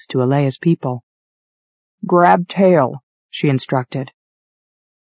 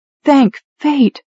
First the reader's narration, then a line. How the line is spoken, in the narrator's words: Ari cried